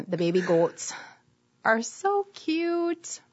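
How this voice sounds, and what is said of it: Wisconsin accent. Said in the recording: “I say that with my Wisconsin accent.”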